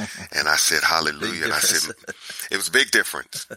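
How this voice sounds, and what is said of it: Usual voice. Nothing is said of it.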